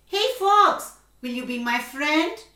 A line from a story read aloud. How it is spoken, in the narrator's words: he called out